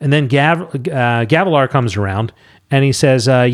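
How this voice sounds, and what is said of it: Usual voice. Nothing is said of it.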